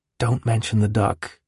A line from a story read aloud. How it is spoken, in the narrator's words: whispered